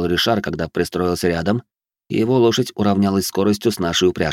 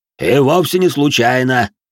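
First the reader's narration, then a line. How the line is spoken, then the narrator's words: Deep bass voice. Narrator (Russian): пробасил де Жориньи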